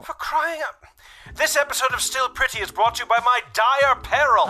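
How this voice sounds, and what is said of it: Unconvincing British accent. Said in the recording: “your accent is kind of crap ... My accent? You don't believe I'm genuinely British?”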